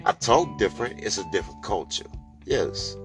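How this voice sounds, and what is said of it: Country-sounding New Orleans accent. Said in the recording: “sound country as fuck ... But you still got an accent.”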